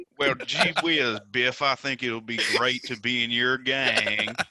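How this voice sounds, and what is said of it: Put-on Southern accent. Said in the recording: “Why does he have a Southern accent?”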